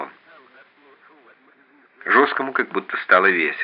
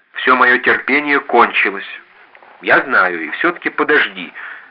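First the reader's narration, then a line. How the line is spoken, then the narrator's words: Harsh, oddly cheerful. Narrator (Russian): жесткий опять говорил так, словно ему было весело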